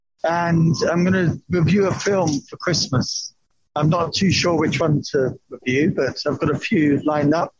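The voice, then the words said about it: Slightly off, congested voice. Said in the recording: “My voice is a bit weird, but it's not COVID, it's just a cold.”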